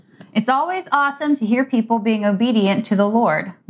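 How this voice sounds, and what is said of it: Reading aloud in a teacher voice. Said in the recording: “I used my teacher voice.”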